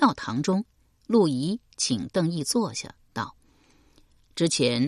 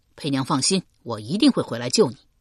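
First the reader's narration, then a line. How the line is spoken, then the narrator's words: Loud, helpless. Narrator (Chinese): 邓毅无力抗拒，只好 大声道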